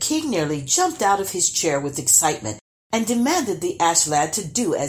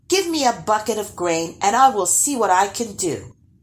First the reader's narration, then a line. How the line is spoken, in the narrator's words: the boy said